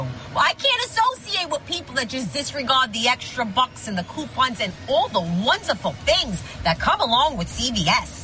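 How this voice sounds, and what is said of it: Distinctive regional accent. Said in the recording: “this woman has the best accent ever”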